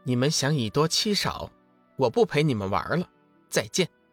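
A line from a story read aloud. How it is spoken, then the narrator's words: Cool, indifferent. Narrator (Chinese): 梦露淡淡的说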